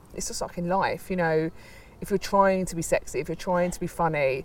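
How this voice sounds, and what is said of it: Working class British accent. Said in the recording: “I don't finish sentences, and I've got, you know, quite a working class accent”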